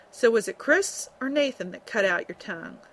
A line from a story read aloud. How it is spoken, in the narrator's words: that stern tone